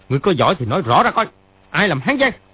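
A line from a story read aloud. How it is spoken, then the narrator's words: Angry shout. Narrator (Vietnamese): Triệu Chí Kính sa sầm mặt, y quát lên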